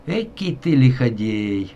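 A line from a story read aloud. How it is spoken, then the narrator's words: Laughing official. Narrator (Russian): рассмеялся надворный советник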